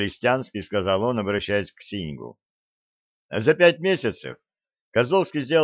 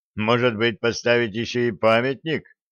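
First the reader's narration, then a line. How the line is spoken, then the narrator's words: Harsh reply. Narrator (Russian): жестким тоном ответил секретарь обкома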